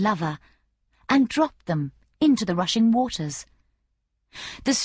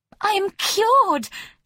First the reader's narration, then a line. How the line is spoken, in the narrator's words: cried